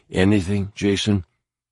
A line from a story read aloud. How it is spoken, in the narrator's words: spoke in barely a whisper